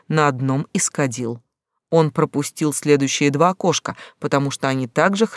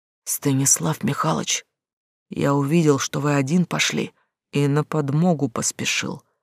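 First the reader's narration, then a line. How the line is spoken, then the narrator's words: Quiet whisper. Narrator (Russian): раздался тихий шепот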